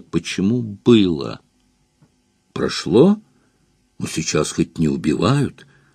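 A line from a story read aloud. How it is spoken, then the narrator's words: Bewildered speech. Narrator (Russian): сказал я растерянно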